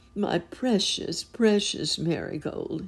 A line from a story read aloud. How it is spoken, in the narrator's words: he cried